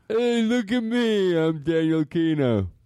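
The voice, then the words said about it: Imitates another person's voice, dumber. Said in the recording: “Do Daniel but dumber ... That does sound like him”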